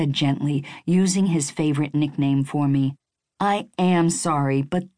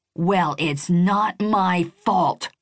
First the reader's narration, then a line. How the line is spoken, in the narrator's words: I shouted, all worked up and unwilling to be mollified